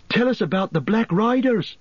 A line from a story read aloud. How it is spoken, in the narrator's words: interrupted Pippin eagerly